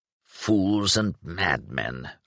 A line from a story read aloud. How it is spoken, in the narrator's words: Oswill muttered, heaving an exhausted sigh